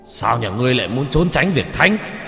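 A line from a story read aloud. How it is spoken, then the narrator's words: Angry shout. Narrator (Vietnamese): Ông đập bàn mà quát lên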